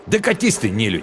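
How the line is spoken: Angry snap. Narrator (Russian): Зло огрызнулся он

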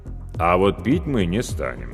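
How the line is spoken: Calm, weighty declaration. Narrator (Russian): спокойно и веско заявил Павел Алексеевич

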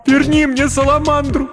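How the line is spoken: Sobbing plea. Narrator (Russian): рыдая, попросила Кирен

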